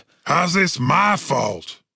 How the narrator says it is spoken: Cooper shouted

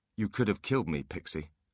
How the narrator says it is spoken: said Holly evenly

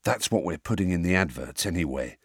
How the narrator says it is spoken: whispered Fred

